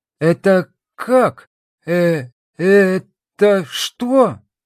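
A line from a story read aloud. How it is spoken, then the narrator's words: Stammering, barely squeezed out. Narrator (Russian): Заикаясь, еле выдавила из себя Марика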